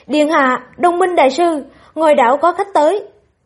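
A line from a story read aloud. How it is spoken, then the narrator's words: Raised voice. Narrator (Vietnamese): Lưu Hữu Lương cao giọng nói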